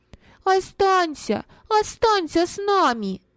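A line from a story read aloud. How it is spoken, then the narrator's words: Children shouting in unison. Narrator (Russian): дети в один голос закричали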